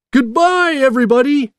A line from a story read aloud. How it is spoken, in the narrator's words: Jack shouted